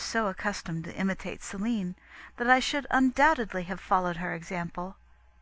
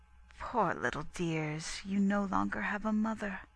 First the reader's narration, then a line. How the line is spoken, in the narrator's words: our nurse, overcome with emotion, said